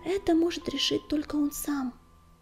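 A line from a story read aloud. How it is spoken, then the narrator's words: Soft. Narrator (Russian): мягко сказала песчаная буря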